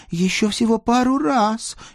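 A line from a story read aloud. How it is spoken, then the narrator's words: Pleading near tears. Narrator (Russian): едва не плача взмолилась Дана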